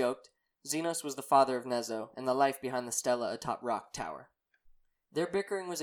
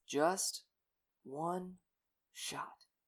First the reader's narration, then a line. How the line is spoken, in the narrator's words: whispered to himself